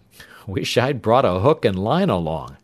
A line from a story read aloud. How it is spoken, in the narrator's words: he chuckled